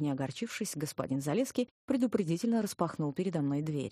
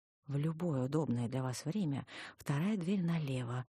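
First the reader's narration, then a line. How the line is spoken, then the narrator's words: Quick whisper. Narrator (Russian): успел-таки шепнуть мне вслед Ховил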